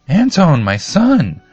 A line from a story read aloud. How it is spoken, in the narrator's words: she screamed